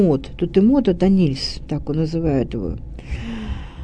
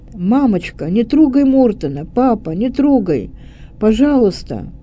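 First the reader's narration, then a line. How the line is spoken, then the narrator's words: Loud cry. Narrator (Russian): громко вскрикнула мать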